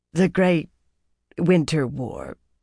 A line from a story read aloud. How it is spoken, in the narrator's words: she said huskily